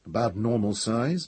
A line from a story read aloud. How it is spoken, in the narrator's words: muttered Pellerat